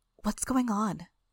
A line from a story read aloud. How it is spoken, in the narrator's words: whispered